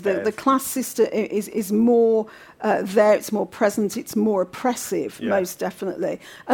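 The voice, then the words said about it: Brummie (Birmingham) English accent. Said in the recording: “my accent, I've got a Brummie accent, and that stands out”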